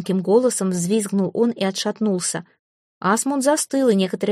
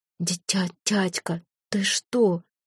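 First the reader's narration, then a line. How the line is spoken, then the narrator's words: Choked whisper. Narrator (Russian): прошептал Святослав, как будто его держали за горло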